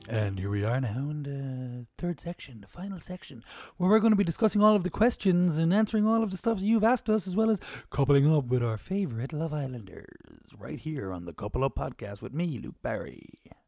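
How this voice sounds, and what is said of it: Put-on sexy announcer voice. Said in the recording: “That's a sexy voice though. It's a sexy, sexy voice.”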